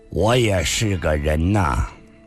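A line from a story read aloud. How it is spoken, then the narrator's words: Flat, indifferent tone. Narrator (Chinese): 上官金虹淡淡地说道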